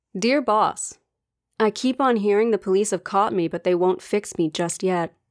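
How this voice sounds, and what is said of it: American accent. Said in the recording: “you're going to have to deal with my American accent.”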